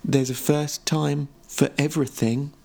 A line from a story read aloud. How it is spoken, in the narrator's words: Kenny replied calmly